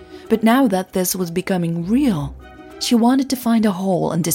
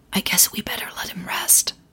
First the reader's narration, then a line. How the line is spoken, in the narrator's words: Emily whispered